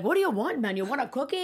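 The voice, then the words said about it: Unusual voice for talking to dog. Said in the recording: “do a different voice? ... dog voice ... That's different than any dog voice. I've heard. Like usually it's like a baby voice, and yours is like not normal.”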